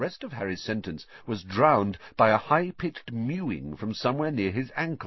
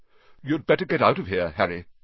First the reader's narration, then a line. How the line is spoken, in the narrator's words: said Nick quickly